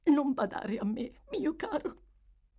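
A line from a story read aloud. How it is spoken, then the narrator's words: Sobbing. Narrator (Italian): singhiozzò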